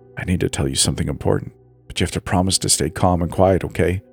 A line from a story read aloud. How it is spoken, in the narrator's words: whispered, my heart pounding